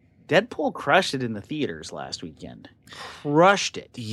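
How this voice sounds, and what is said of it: Usual voice. Nothing is said of it.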